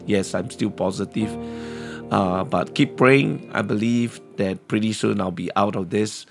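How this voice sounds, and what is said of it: Voice sounds sick. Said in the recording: “as you can hear from my voice, that I'm not totally overcome this sickness yet”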